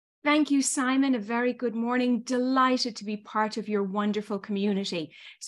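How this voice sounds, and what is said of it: Irish accent. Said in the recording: “as the accent probably still betrays, I was born and raised in Ireland”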